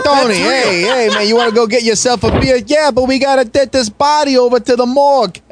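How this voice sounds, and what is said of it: Put-on Boston accent. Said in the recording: “Why are we doing Boston?”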